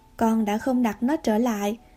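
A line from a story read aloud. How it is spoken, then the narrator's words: Plain. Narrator (Vietnamese): bà Marilla nói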